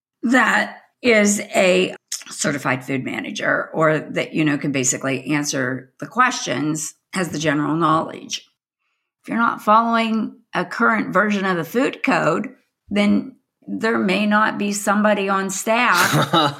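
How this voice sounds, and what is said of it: Hoarse, fading voice. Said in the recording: “<clears throat> ... sorry, I'm losing my voice,”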